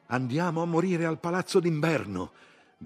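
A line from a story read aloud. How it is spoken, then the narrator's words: Cheerful shout. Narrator (Italian): gridò allegramente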